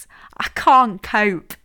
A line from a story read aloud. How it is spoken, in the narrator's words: laughed Hazel